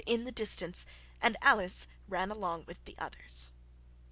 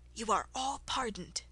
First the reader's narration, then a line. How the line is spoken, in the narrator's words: the King say in a low voice